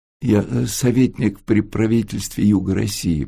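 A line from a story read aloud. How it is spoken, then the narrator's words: Mumbling. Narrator (Russian): промямлил Антон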